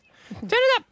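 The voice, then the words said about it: Imitates another person's voice. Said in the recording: “I don't think that's a very good impersonation.”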